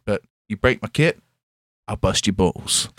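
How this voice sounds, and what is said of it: Put-on American accent. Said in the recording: “an American accent.”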